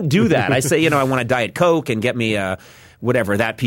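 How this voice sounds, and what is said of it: Usual voice. Nothing is said of it.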